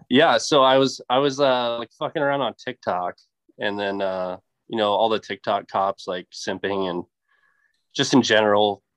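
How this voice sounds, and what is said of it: Sick, congested voice. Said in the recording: “That'd probably clear my sinuses. ... why I sound weird, it's because I'm sick.”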